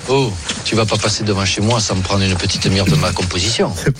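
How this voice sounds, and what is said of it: Corsican accent, done very well. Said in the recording (French): “Franck Leboeuf aussi qui fait hyper bien l'accent corse”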